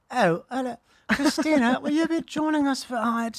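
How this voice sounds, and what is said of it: Drunken posh upper-class accent. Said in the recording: “the upper crust... They're wasted, right?”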